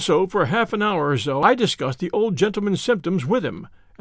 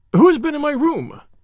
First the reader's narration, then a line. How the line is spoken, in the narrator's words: he cried